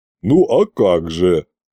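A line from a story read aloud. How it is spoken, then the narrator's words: Chuckle. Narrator (Russian): хохотнул он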